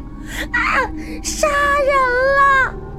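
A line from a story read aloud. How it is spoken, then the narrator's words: Shrill piercing scream. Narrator (Chinese): 林娇便发出了尖利刺耳的惊叫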